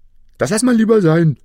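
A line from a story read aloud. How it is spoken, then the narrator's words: Brave call. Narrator (German): rief der Schneider mutig, weil das Männchen ja so winzig war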